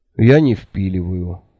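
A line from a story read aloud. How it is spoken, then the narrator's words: Sad speech. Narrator (Russian): печально сказал Анде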